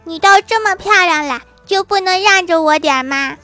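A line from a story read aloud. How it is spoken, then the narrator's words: Flushed, heated shout. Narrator (Chinese): 正当面红耳赤的时候，郭晓霞 喊道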